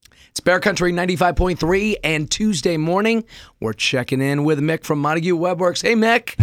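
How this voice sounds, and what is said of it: Rusty, hoarse voice. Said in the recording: “your voice sounds a little rusty”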